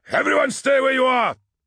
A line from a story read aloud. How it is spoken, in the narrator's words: barked Sergeant Ongoku